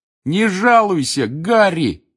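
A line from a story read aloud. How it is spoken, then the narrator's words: Excited shout. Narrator (Russian): восторженно крикнул Рон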